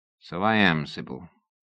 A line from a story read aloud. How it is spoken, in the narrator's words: he said softly